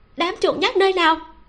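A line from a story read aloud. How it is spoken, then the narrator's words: Charming, choked, fierce voice. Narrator (Vietnamese): Giọng nói kiều mị mang theo chút nghẹn ngào, cho dù hung dữ vẫn vô cùng đáng yêu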